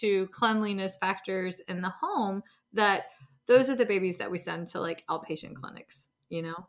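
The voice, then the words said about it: Thick regional accent. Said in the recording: “listen to my accent getting really thick”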